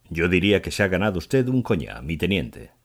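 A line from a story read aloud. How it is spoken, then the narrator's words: Cheerful tone. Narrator (Spanish): empezó en tono risueño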